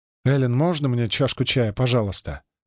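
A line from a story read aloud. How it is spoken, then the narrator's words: Mumbling. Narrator (Russian): бормочет Пирс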